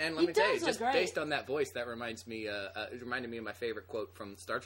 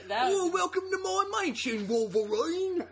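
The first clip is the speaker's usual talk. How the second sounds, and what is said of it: Imitates another person's voice. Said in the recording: “I didn't know you could do Patrick Stewart also.”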